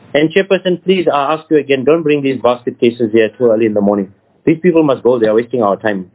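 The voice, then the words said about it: Angry, heated speech. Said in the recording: “if I sound angry,... I'm angry”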